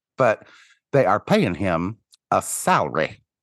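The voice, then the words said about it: Imitated Midwestern accent. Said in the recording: “in that perfect Midwestern accent ... Salary. Two syllables.”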